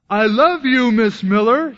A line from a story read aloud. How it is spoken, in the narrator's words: he exclaimed loud enough for the whole class to hear